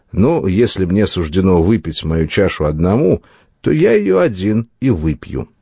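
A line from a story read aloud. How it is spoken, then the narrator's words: Grim, smiling speech. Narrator (Russian): Он мрачно улыбнулся и сказал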